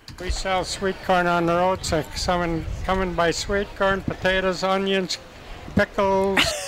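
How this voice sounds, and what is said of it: Minnesota accent. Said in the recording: “That's your Minnesota accent”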